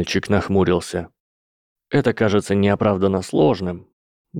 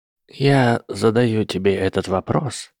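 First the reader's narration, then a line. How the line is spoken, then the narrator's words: Soft voice. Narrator (Russian): тем же мягким голосом продолжил Альбус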